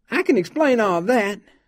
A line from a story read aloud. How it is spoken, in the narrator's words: Melvin whined